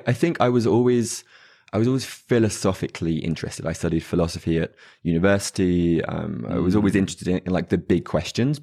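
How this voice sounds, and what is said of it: English accent. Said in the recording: “as you can probably tell from the accent, in England”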